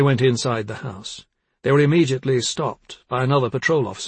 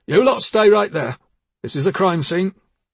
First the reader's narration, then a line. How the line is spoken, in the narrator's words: He barked